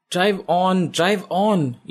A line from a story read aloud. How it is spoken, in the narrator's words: Isha shouts at her driver